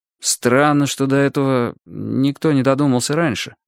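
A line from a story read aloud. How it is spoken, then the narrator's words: Hesitant. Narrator (Russian): неуверенно сказал Валерий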